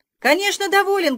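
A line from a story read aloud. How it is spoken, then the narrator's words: Shouting. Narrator (Russian): крикнул я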